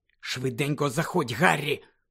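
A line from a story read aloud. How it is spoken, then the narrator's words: Whispered. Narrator (Ukrainian): прошепотів Люпин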